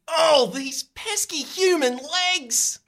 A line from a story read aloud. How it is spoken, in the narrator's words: She whines